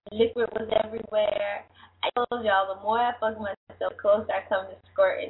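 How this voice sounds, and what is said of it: Slightly raspy voice. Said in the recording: “maybe that's what's wrong with my voice, because it's a little raspy”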